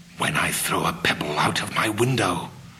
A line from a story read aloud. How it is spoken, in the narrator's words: whispering again